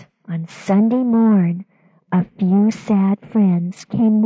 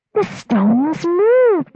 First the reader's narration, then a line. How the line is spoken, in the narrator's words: they cried